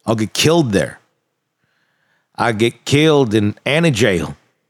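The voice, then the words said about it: Put-on Southern US accent. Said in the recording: “I did a little southern accent there ... That was very good ... There you go, a little bit more.”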